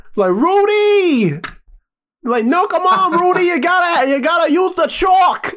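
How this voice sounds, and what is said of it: Boston accent imitation. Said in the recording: “Why do you have like this Boston accent?”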